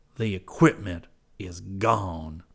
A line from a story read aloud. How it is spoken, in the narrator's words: announced harshly